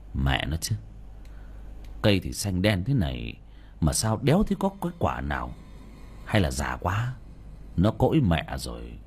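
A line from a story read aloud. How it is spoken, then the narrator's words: Muttering. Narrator (Vietnamese): lẩm bẩm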